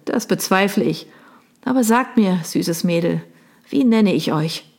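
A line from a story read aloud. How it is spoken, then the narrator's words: Laughing question. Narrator (German): fragte er und lachte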